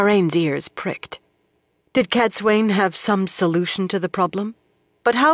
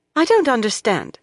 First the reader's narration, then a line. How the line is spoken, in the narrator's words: Lorella said sharply